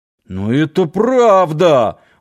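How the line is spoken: Offended. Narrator (Russian): обиженно заморгал Нанос

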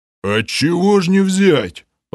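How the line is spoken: Low booming rumble. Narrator (Russian): прогудел Грим

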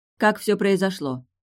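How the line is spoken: Curt question. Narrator (Russian): отрывисто спросила Арьяна

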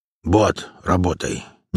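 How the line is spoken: Quiet. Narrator (Russian): негромко сказал он

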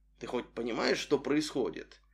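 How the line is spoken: Whispered. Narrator (Russian): шепнул ему

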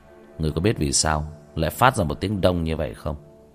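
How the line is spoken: Cold sneering laugh. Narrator (Vietnamese): Tiểu Thất cười nhạt

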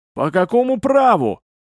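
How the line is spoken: Hysterical shout, voice cracking. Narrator (Russian): истерически закричал он, пустив в конце петуха

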